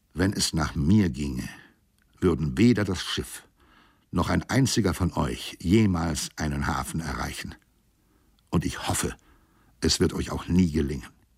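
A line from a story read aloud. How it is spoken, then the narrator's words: Slow, implacable, hateful. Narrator (German): sagte mit unversöhnlicher Stimme langsam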